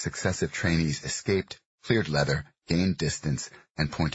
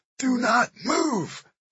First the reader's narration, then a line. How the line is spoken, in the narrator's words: The gym echoed with shouts of